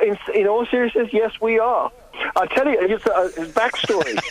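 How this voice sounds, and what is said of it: Usual voice. Nothing is said of it.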